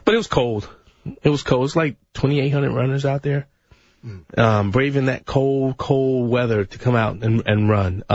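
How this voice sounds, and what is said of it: Slightly tired voice. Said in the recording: “my voice is a little tired today”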